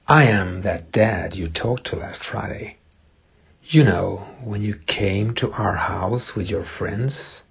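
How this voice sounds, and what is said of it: Noticeable foreign accent. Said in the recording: “Who? With that accent?”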